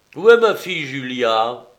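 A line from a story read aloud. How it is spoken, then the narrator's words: Plain. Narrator (French): demanda-t-il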